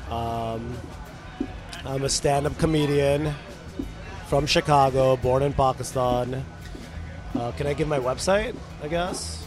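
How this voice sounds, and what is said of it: Hoarse, nearly lost voice. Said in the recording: “Sorry, my voice is gone.”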